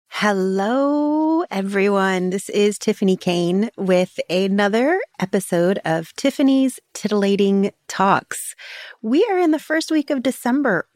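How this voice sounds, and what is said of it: Sick, congested voice. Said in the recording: “You can still hear in my voice that I am still recovering from COVID. It's now turned into pneumonia.”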